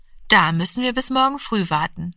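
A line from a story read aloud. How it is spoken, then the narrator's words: Plain. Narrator (German): sagte die Mutter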